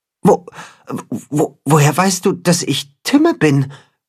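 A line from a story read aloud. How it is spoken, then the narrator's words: Creature's stammer. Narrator (German): stottert das Katzenhuhn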